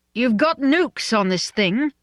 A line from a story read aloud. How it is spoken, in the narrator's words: Mally asked indignantly